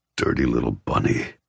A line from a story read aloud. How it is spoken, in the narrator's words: he growls hotly